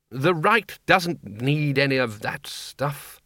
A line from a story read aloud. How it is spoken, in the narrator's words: said Ridcully sharply